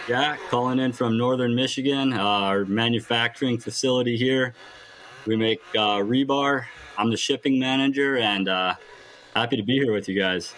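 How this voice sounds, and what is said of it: Strong northern US regional accent. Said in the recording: “I love the accent, too. It's very, very up there.”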